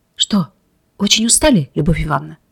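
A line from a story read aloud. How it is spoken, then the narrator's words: Quiet question. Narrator (Russian): Шахов тихо спросил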